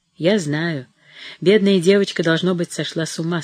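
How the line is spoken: Sad. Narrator (Russian): сказал доктор грустно

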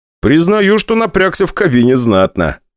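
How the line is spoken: Smiling. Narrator (Russian): улыбнулся я

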